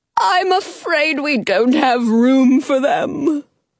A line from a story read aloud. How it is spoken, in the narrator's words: the Mad Hatter says sadly